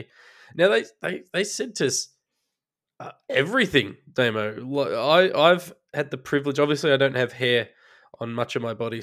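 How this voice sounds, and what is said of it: Slightly sick, under-the-weather voice. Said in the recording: “you might hear in my voice. I'm a little under the weather”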